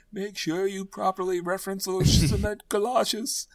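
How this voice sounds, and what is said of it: Put-on mob boss accent mashup. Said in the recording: “full mob boss, absolutely. ... I don't even know what accent that was. It's some kind of mashup of like...”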